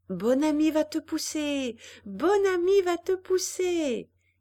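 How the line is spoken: Excited bouncing shout. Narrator (French): criait Jeanne en sautant autour de sa mère

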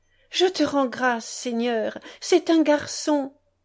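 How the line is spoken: Grandfather exclaiming. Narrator (French): s'exclama l'aïeul

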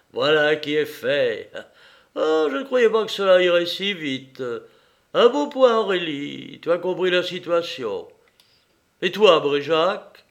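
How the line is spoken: Joyful sigh. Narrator (French): dit-il avec un soupir de joie

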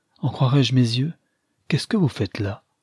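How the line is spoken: Exclaiming. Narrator (French): s'écria-t-il

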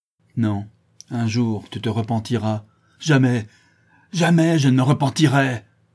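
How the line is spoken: Furious cry. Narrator (French): s'écria le maître d'école avec rage

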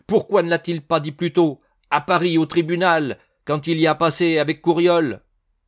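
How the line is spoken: Exclaiming. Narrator (French): s'exclama Dubosc

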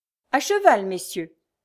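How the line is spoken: Plain. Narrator (French): dit-il ensuite

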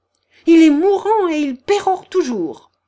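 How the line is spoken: Exclaiming. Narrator (French): s'écria Elisabeth Prokofievna

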